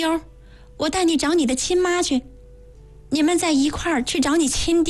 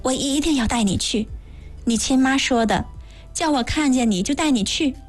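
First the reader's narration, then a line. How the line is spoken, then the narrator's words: Whisper in the ear. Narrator (Chinese): 我附在他耳旁小声说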